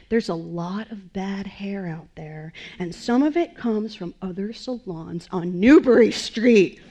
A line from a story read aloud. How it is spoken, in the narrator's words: Bruce, stared intently at each of us in turn while growling